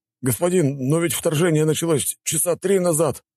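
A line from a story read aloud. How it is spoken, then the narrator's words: Pleading. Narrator (Russian): взмолился офицер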